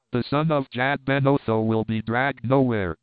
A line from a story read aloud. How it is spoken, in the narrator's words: cried Tarzan